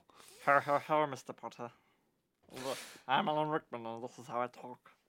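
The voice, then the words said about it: Odd actor impression, Gollum-like voice. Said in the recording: “That is quite an impression. ... possibly Gollum? ... It's definitely the most interesting interpretation of Alan Rickman I've heard in a while.”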